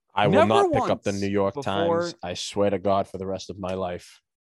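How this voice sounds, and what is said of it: Imitates another person's voice. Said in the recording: “That was my impression of Bernie Sanders”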